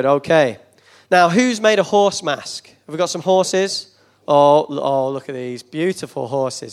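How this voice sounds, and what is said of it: Northern English accent. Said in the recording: “I have a bit of an accent and that I'm not from around here because I'm from up north”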